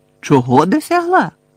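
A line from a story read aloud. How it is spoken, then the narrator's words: Exclamation. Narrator (Ukrainian): вигукнув Гаррі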